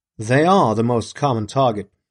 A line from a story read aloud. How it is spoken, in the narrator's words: said